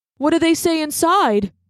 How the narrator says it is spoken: asked Darsh nervously

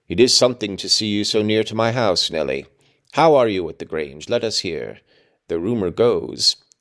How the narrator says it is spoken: he added in a lower tone

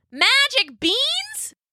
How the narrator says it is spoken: she just kept yelling

